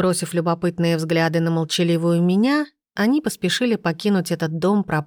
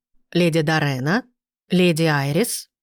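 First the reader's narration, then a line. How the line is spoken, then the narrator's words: Formal tone. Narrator (Russian): обратился он к нам официальным тоном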